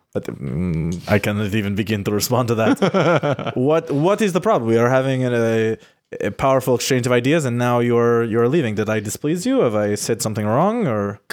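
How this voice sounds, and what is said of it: Put-on Lithuanian accent. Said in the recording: “I have to remember what a Lithuanian accent, what I was using as a Lithuanian.”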